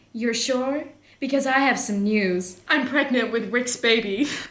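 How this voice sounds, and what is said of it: Put-on accent, well performed. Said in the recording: “that accent was amazing.”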